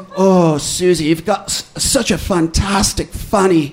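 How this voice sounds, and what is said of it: Put-on different accent. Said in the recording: “dirty talk in a different accent”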